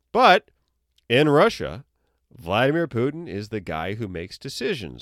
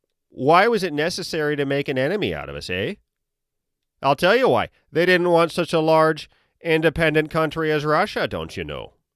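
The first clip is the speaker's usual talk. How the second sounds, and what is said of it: Put-on Upper Midwest American accent. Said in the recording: “I am going to give him an accent, but I'm going to give him Upper Midwest”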